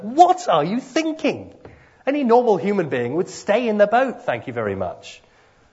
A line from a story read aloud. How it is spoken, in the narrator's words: mentally shout at Peter